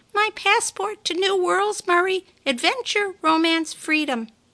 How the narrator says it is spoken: chirped out

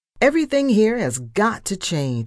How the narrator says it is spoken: I shouted

